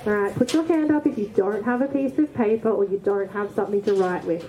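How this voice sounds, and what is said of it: Loud projecting teacher voice. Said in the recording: “Can you hear me at the back? I'll use my teacher voice.”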